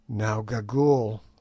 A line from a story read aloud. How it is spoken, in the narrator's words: said I in a low voice